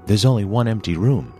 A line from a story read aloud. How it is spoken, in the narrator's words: he said